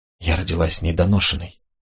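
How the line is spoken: Whispered. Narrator (Russian): прошептала Марго

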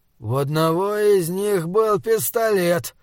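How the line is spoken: Said, then coughing, groaning. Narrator (Russian): сказал МИП, закашлялся и застонал

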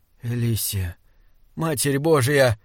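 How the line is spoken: Hoarse voice. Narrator (Russian): хриплым голосом сказал Саймон

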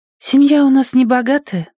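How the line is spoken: Sighing girl. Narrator (Russian): вздохнув, сказала девочка

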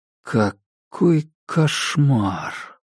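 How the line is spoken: Whispered. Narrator (Russian): прошептал Дейл

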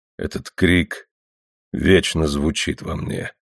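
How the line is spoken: Hollow, muffled. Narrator (Russian): глухо сказал Кнутсон

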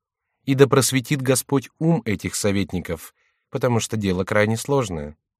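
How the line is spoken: Calm reply. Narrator (Russian): спокойно отвечала ему Екатерина

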